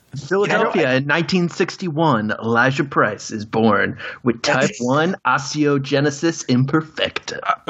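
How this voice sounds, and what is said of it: Sarcastic reading voice. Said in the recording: “Don't put it in a sarcastic voice ... sarcastic. That was my podcast voice.”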